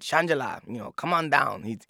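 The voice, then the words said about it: Put-on Mexican accent. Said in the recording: “that was my Mexican, Vidal in English, doing Mexican accent”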